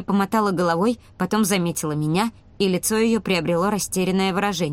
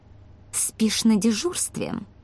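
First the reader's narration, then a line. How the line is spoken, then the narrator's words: Through gritted teeth. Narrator (Russian): процедила доктор Эйсуле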